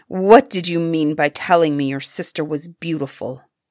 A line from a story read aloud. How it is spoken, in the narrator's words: asked him angrily